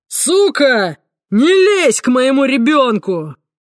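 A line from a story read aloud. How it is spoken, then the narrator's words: Barked. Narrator (Russian): рявкнул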